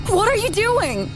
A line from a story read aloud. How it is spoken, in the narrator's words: I screamed, trying to free myself